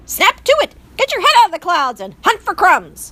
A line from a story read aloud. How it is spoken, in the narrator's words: barked Despero's father